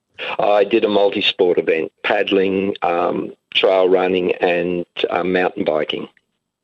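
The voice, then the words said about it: Slightly harsh, hoarse voice. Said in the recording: “my voice is a little harsh from the celebrations at the end”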